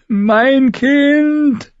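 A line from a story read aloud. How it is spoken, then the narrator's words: Screamed. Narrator (German): schrie sie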